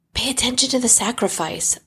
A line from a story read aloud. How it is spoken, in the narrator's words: Laomache hisses back softly